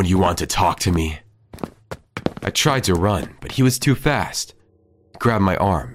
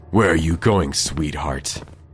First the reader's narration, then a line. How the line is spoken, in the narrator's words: He said, his voice dripping with malice